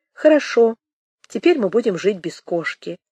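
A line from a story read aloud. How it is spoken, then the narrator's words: Calm, reasoning, to herself. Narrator (Russian): Она спокойно и рассудительно как бы сказала себе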